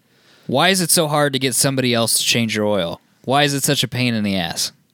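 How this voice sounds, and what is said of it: Imitates another person's voice. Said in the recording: “I can be like Adam... This is my Adam impression.”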